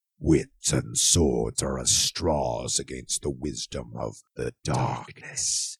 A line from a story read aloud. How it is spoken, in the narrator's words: growled the Stygian